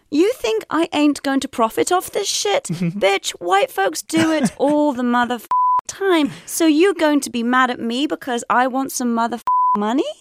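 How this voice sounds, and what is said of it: Imitates another person's voice. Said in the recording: “this might sound a little bit unusual in my accent”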